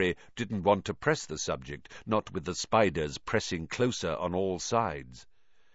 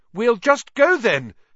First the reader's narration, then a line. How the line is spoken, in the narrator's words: called desperately, hearing leaves rustling behind him